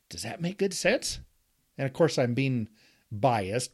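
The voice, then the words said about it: Sarcastic tone. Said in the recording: “You can hear it in my sarcastic voice”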